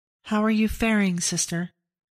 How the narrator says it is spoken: Severin asked

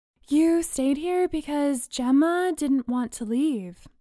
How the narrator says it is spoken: Bree said, sleepily

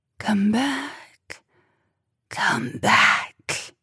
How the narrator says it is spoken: That cold, hollow, rasping whisper, calling out

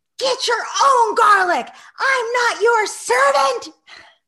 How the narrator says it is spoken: she shouted at the top of her lungs

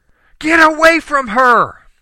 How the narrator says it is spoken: my mother-in-law screamed

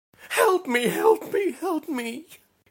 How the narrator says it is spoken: she screeched, her face contorted into an expression of the purest fear

